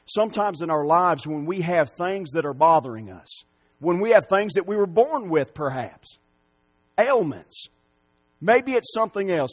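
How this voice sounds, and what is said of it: Strong country accent. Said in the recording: “you just have a really strong country accent”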